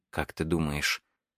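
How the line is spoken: Faint distant mumbling. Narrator (Russian): едва слышимое бормотание, которое в действительности, вероятно, было безудержным пением

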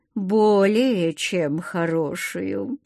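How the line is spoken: Tempting drawl. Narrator (Russian): искушая ее, протянул Майки

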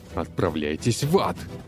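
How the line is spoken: Barked. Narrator (Russian): рявкнул Игорь

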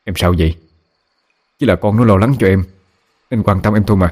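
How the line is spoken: Angry shouting. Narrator (Vietnamese): Bố cáu lên quát mẹ

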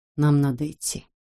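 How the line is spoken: Quiet. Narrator (Russian): тихо сказал Каска

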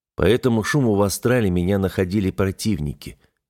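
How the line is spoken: Sighing. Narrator (Russian): вздохнул я

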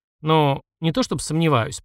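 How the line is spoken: Mumbled. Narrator (Russian): промямлил я

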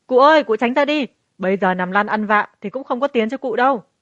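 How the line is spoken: Hurried loud shout. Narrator (Vietnamese): Đám thuộc hạ vội hét to

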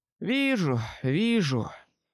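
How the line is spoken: Sigh. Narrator (Russian): вздохнул

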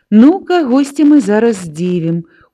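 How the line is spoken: Mysterious smile. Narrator (Belarusian): усміхнулася таямніча Настя

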